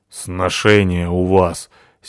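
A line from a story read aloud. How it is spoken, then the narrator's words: Angry. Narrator (Russian): сердито сказала Натаха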